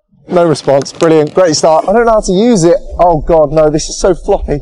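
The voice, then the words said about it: British accent. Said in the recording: “use the British charm and accent”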